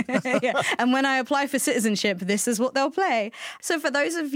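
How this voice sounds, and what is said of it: Usual voice. Nothing is said of it.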